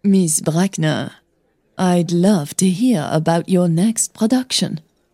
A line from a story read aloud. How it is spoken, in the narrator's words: she said smoothly